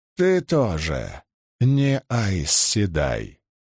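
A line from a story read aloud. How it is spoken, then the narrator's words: Creaky voice. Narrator (Russian): проскрипела она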